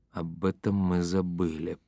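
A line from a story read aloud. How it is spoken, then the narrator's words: Muttered. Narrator (Russian): пробормотал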